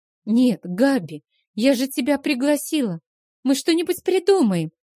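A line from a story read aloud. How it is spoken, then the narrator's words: Babbling. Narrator (Russian): залепетала Стэсси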